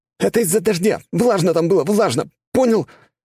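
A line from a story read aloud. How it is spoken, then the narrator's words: Shaky young cry. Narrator (Russian): вскрикнул парнишка дрогнувшим голосом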